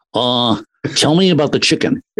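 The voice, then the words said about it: Rough Johnny Carson impression. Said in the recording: “I don't do a good Johnny Carson impression, but I'll try it anyway.”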